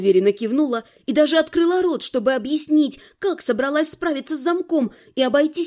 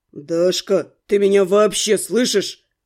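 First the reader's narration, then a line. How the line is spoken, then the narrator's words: Growled. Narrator (Russian): рыкнул блондин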